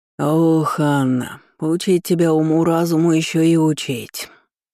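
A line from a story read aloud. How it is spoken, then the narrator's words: Grumbling. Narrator (Russian): проворчали с террасы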